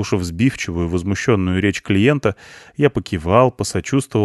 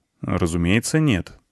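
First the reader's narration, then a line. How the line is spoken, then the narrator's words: Calm. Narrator (Russian): ответил я спокойно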